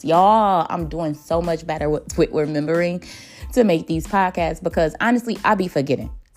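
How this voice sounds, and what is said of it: Country accent. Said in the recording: “excuse my accent, I'm a little country”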